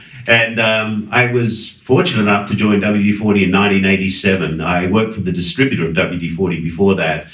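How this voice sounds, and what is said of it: Australian accent. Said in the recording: “I was born in Sydney, Australia, as some of you might get from my accent”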